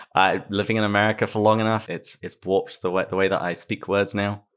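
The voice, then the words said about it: English accent with Australian-American tinge. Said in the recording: “the rather Australian accent ... I'm English ... she tells me that I'm sounding more American”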